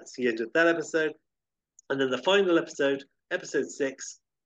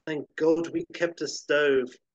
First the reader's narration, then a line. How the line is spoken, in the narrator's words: Edmund, sighing, says